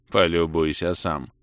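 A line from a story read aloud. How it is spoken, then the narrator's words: Sarcastic snort. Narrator (Russian): саркастически хмыкнул баронет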